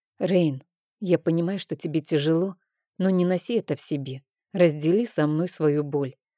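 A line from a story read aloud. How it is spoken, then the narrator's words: Soft gentle voice. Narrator (Russian): мягко сказала Аманда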